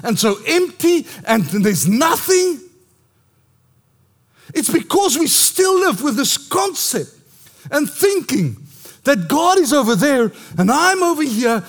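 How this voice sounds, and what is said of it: Shouting. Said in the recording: “I know I'm shouting”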